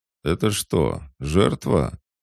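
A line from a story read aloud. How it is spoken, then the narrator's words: Sudden mocking question from behind. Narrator (Russian): вдруг насмешливо спросили у меня за спиной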